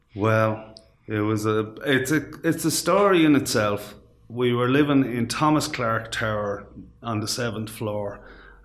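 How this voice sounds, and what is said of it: Irish accent, not the local one. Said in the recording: “You will know pretty quickly that that's not a typical Kilty Clogher accent when he starts talking ... you came from Ballymun”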